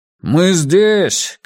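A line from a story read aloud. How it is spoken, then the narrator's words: Shouting. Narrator (Russian): крикнул диджей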